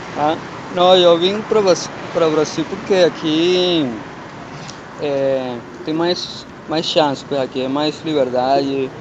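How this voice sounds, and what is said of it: European Portuguese accent. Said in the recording (Portuguese): “eu percebi que você tinha esse sotaque ... nasci em Portugal”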